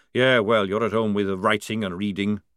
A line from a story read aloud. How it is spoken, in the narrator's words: grumbled Jackram